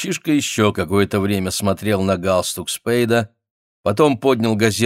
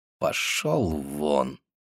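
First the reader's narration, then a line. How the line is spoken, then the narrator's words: Through gritted teeth. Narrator (Russian): сказал сквозь зубы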